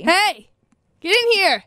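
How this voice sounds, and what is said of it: Yelling, demanding call. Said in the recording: “my inviting tone of voice ... by yelling at them ... my demanding tone”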